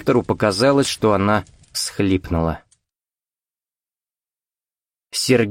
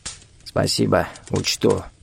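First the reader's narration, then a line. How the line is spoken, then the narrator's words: Grumbled. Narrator (Russian): буркнул хозяин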